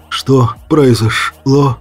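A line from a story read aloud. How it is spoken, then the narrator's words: Hoarse question. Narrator (Russian): хрипло поинтересовался он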